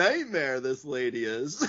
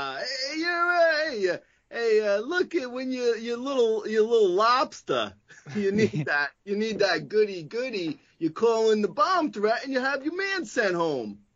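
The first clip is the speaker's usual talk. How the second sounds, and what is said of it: Exaggerated heavy Maine accent. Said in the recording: “This was in Maine, where they have the heavy accent there... The accent.”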